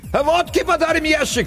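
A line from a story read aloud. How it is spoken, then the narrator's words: Shouted from a distance. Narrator (Russian): крикнули оттуда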